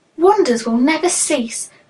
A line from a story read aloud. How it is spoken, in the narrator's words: cried Simon